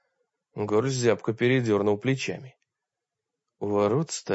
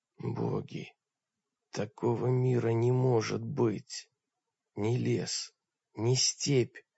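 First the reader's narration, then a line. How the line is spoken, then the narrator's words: Hoarse, exhausted voice. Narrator (Russian): Таргитай сказал хриплым, измученным голосом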